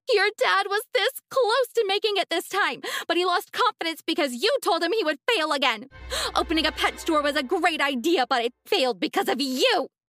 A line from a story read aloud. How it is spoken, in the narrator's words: My mom screamed